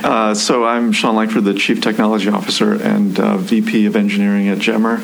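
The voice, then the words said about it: Great radio voice. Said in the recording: “has a great radio voice.”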